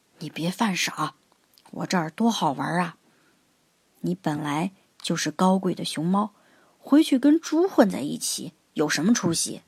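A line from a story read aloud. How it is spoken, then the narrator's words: Low voice. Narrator (Chinese): 星星经理 低声说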